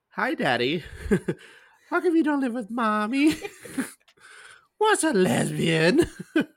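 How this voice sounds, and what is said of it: Mimicked baby voice. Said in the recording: “you doing the voices”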